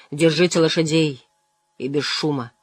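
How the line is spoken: Quiet, offhand remark. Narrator (Russian): Лан негромко обронил

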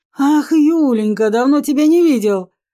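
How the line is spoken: Exclamation. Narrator (Russian): воскликнул

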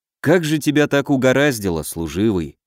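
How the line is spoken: Sighing. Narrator (Russian): вздохнул я

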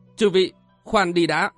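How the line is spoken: Sudden loud voice. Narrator (Vietnamese): Triển Bạch bỗng lớn tiếng nói

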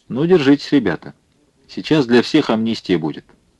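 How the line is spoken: Good-natured and calm. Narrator (Russian): он добродушно и спокойно сказал им

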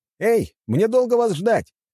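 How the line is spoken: Impatient shout. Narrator (Russian): крикнул я, когда понял, что они перешли в глухую оборону

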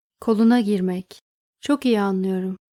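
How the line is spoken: Plain. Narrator (Turkish): dedi Benno

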